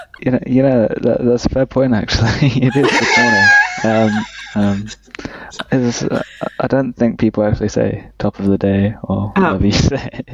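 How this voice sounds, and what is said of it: British accent. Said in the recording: “Look at his sweet accent. ... What British?”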